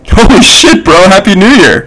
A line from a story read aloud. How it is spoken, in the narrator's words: exclaimed Justine